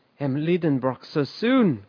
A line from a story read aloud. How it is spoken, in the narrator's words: cried poor Martha in great alarm